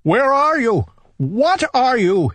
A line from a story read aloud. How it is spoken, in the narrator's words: he cried